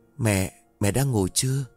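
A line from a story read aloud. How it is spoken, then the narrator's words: Soft question. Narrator (Vietnamese): cô khẽ hỏi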